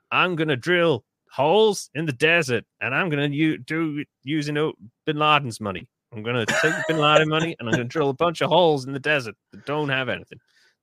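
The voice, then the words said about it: Poor George Bush impression. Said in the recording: “I'm going to do the voice again ... That's my George Bush. That was terrible.”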